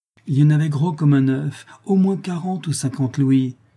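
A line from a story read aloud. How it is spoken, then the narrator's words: Greedy exclamation. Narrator (French): s'écria Calebasse, les yeux brillants de convoitise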